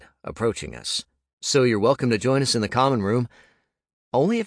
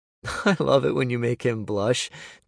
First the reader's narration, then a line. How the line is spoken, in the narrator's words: Jonas said with a laugh